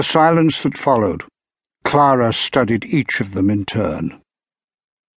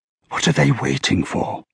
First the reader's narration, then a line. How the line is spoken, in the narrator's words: whispered Clara